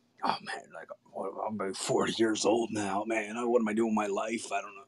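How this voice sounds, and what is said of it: Beetlejuice-like impression of a friend. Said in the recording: “I don't know why he sounds like Beetlejuice in my impression.”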